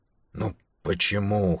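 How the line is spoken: Hoarse question. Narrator (Russian): хрипло спросил он

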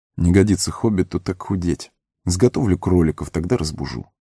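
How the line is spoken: Muttering. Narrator (Russian): Сэм пробормотал

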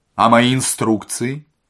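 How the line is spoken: Menacing question. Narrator (Russian): спросил Остап грозно

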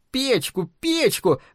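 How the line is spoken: Screamed into ear. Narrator (Russian): завопила Элли прямо в ухо отцу

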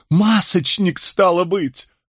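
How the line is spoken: Sputtering exclamation. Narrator (Russian): воскликнул Григсби, брызжа слюной

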